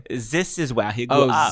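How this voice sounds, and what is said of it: Put-on German accent. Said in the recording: “you just instantly go into the accent ... That was my German accent.”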